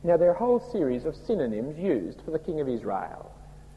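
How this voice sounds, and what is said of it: Broad Australian accent. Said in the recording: “my broad Australian accent”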